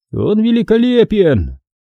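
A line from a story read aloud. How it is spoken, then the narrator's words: Shout from crowd. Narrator (Russian): крикнули из толпы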